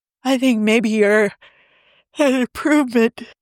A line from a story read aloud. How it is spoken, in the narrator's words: Steve said around a yawn